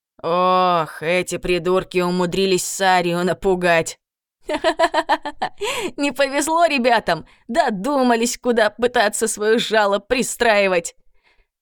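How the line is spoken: Guard agreeing. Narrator (Russian): согласился другой стражник

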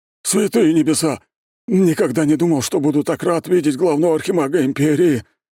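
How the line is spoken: Relieved exhale. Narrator (Russian): выдохнул возница

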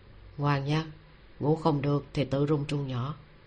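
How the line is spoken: Soft, low voice. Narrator (Vietnamese): Hắn hạ giọng nói

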